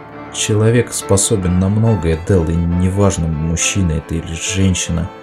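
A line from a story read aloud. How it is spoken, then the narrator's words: Cautious mumble. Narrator (Russian): осторожно пробормотал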